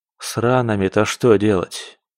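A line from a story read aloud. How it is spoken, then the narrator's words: Tired question. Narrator (Russian): спросил он усталым тоном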